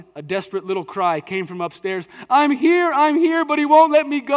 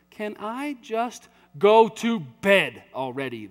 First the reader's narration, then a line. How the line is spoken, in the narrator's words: the dad said